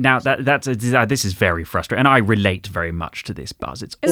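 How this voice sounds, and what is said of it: Usual voice. Nothing is said of it.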